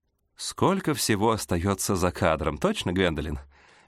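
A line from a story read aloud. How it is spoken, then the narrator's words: Laughing. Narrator (Russian): Мистер Джордж засмеялся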